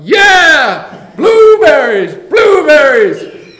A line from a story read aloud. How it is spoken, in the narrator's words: in an explosion, all 290 teachers, principals, bus drivers, aides, custodians, and secretaries yelled